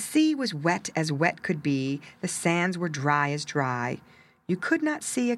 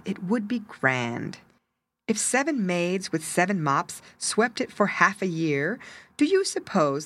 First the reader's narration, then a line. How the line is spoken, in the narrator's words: the walrus said